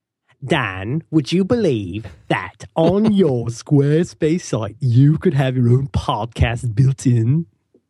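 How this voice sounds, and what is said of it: Poorly done put-on accent. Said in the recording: “Is literally the worst accent of... ... That one actually really wasn't that good.”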